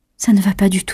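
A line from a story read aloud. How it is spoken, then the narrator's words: Plain. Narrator (French): dit-elle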